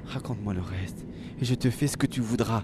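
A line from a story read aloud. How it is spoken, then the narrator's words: Moaning. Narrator (French): gémissait Vossem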